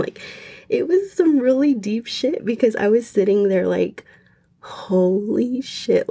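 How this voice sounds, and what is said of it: Shaky, emotional voice. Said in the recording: “I'm getting like shook talking about it. I'm sure you guys can tell by my voice.”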